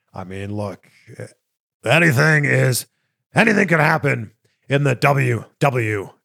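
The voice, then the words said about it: Vince McMahon impression. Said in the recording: “doing a Vince McMahon impression.”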